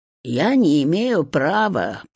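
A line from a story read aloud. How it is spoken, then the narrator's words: Muttering. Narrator (Russian): пробурчала избушка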